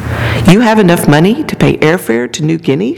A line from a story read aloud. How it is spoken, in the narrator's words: she said